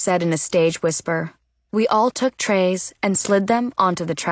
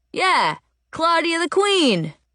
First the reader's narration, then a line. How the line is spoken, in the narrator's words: a voice behind me yelled